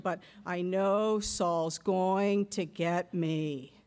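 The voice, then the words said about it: Droning Eeyore impression. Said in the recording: “one can almost hear the Eeyore-like drone ... I don't do a good Eeyore impression”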